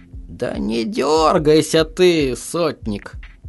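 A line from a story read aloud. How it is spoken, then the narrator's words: Lazy. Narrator (Russian): лениво сказал староста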